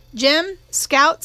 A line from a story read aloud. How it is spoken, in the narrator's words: said Atticus